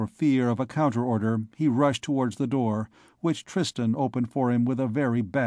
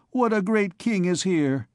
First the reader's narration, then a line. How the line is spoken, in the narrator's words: cried Gringoire